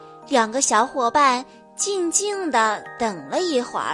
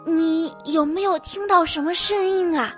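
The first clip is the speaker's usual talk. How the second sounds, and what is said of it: Whispered question. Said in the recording (Chinese): “小声地问”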